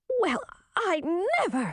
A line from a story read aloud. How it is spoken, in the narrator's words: sputtered Chartreuse